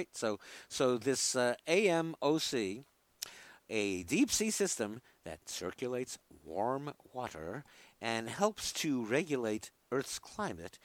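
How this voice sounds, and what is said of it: New York accent. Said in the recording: “There's my New York accent messing things up here.”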